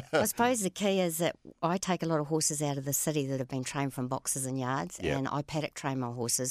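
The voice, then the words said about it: New Zealand accent. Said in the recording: “I'm picking up a Kiwi twang there from you ... when you came to Australia from New Zealand”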